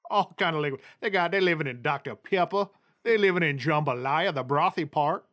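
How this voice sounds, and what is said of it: Put-on Cajun accent. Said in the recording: “I heard Cajun man accent.”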